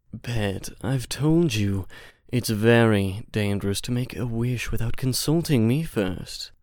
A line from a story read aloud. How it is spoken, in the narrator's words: he said in his most debonair voice